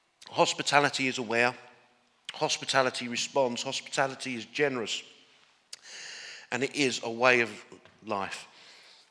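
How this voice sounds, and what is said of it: English accent. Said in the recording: “I'm actually originally from Northern Ireland. And usually at this point, I make a joke about my accent. ... you wouldn't think, oh, he's another Englishman”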